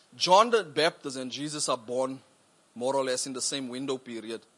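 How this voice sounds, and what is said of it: South African accent. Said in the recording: “South Africans don't think they have an accent”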